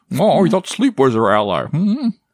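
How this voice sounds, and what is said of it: Bad Bane impression. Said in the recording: “My bad Bane impression.”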